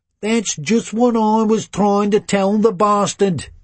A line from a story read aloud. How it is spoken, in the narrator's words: he says in a Brummy accent